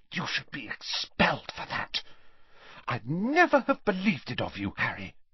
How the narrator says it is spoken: so that only Harry could hear her, she hissed

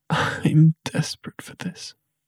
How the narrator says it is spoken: she gasped

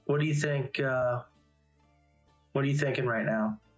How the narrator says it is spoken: kind of whisper to Raine, and I'm going to say

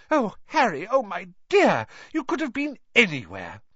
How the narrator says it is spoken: Gasping for breath, she

